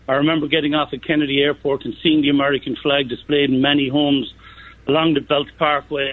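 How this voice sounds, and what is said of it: Irish accent. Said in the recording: “I'm proud to be an American with an Irish accent ... A beautiful Irish accent”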